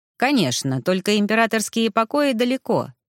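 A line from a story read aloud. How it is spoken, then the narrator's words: Even-toned reply. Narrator (Russian): таким же ровным тоном ответил Дибофорд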